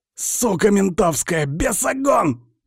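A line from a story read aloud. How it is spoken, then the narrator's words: Hoarse wheezing. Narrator (Russian): хрипит он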